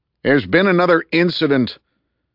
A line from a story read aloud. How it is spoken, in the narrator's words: He yelled